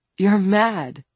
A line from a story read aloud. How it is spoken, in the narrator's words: William said